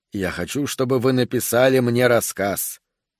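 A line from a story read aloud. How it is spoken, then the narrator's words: Calm explanation. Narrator (Russian): спокойно объяснил Шутер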